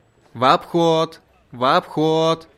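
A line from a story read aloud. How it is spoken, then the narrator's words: Overly loud shout. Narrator (Russian): Излишне громко прокричал он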